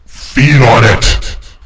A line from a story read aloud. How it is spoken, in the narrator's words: roared for all I was worth